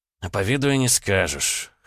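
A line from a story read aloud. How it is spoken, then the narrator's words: Pleased, proud snort. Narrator (Russian): хмыкнул с довольным видом, гордясь подарком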